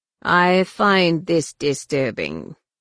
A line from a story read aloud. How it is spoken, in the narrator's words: Shimra rumbled from on high